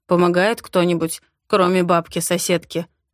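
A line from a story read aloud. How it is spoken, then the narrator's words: Mocking question. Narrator (Russian): спрашивает насмешливо, почти как раньше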